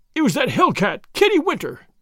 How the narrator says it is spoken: he cried

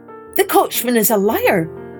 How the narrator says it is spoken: shouted, the stranger

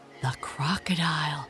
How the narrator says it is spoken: he gasped

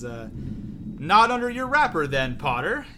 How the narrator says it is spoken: yelled the Death Eater

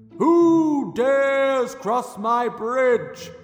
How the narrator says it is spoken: boomed the troll

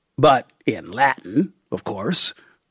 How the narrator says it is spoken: said

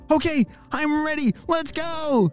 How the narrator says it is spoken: shouted Ollie

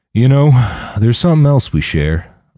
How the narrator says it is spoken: Mike said, his voice low and somber

